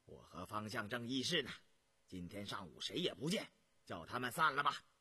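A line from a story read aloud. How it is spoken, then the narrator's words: Stern, sharp. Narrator (Chinese): 张廷玉厉声说道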